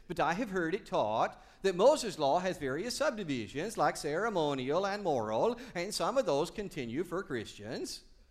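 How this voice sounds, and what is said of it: Bad put-on Swedish accent. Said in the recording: “In that bad Swedish accent that you often use”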